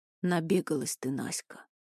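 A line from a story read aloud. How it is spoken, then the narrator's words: Tired. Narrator (Russian): устало сказал Петр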